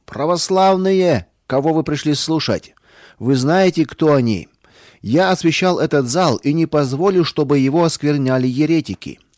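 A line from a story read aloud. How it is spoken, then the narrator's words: Loud priest. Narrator (Russian): священник громко сказал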